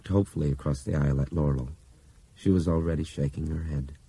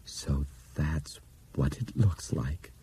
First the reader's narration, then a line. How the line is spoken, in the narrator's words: After a long moment, he said in a soft, awed voice